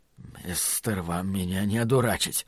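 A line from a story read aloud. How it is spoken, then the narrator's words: Mumbled. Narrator (Russian): пробормотал Ллойд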